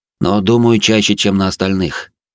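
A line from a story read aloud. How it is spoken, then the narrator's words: Heavy sigh. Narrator (Russian): добавил я и тяжело вздохнул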